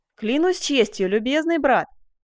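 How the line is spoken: Laughing exclamation. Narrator (Russian): воскликнул со смехом

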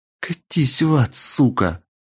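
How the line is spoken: Forced strained words. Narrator (Russian): Только и смогла выдавить девушка

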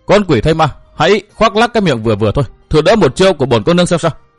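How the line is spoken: Furious shout, young woman. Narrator (Vietnamese): Cô nương bịt mặt cả giận quát

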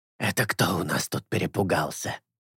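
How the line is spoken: Strained whisper. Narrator (Russian): Говорить шепотом явно стоило ему труда

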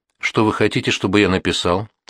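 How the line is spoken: Plain. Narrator (Russian): спросил Луконин

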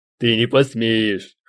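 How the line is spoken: Short laugh. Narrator (Russian): хохотнул мой сосед

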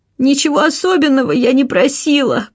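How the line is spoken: Sobbing. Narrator (Russian): прорыдала она

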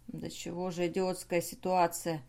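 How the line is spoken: Muttered. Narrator (Russian): пробормотал Бернар

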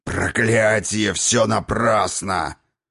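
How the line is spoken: Old man roaring. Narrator (Russian): взревел старый Хрофт

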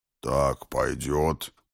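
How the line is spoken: Low booming voice. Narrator (Russian): прогудел мой подручный

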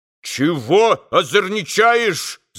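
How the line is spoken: Shouted. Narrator (Russian): закричал мещанин

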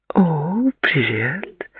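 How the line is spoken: Cooing. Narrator (Russian): проворковала она

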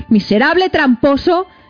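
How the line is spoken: Shouted. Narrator (Spanish): gritó

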